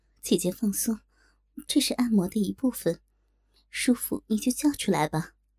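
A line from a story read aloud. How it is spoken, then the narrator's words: Soft. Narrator (Chinese): 曼娘柔声道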